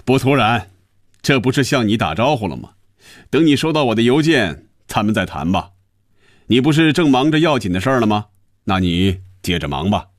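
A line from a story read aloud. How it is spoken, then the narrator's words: Satisfied, laughing. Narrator (Chinese): 余威感觉舒服满足痛快，他笑着说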